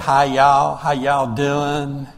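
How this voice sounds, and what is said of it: Heavy thick Southern accent. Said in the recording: “a really heavy, thick southern accent.”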